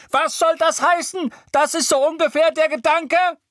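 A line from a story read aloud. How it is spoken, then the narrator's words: Shriek. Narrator (German): Weasley kreischen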